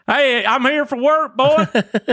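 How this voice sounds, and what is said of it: Exaggerated strong regional accent. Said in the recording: “I used to have an accent. They're like, what? You still have an accent? And I was like, yeah, but I mean like different.”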